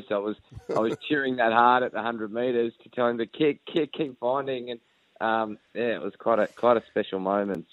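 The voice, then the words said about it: Hoarse, strained voice. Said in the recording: “you can probably hear my voice, guys. I actually lost my voice.”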